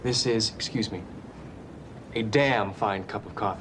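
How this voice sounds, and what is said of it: Imitates a TV character's voice. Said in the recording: “I'll just drop in Dale Cooper being like”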